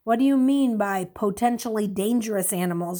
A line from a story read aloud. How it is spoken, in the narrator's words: Ray asked